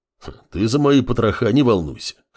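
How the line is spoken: Bear's gruff snort. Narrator (Russian): хмыкнул медведь

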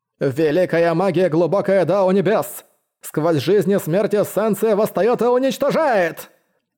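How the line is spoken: Creaky booming voice. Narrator (Russian): Скрипучий голос Сюань Даоцзы прогремел на весь храм

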